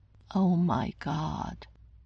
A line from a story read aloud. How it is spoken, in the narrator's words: Banner said slowly, every few minutes